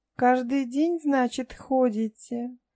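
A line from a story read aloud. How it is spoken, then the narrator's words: Purring with smile. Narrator (Russian): промурлыкала Янка с легкой улыбкой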